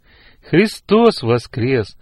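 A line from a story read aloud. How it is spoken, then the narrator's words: Joyful greeting. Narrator (Russian): радостно поприветствовала мама девочек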